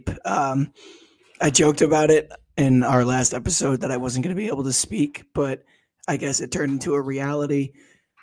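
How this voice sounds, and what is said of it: Hoarse, strained voice. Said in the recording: “he screamed just a little bit too much ... he can't talk ... as I'm sure you can hear by my voice, I am in rough shape”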